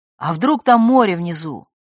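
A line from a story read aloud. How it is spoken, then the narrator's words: Shouted. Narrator (Russian): Кто-то крикнул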